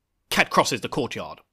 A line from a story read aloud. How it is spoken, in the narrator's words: barks at him and goes